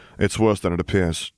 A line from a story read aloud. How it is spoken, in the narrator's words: Harry sighed